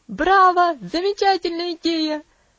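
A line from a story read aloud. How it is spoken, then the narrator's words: Shouted. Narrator (Russian): закричал Хэролд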